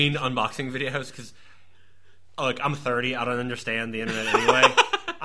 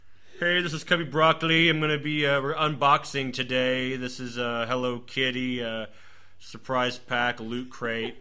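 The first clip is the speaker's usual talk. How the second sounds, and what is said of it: Monotone impression voice. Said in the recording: “I like this impression that's just like a very monotone ... Sounds like Bill Murray from Caddyshack.”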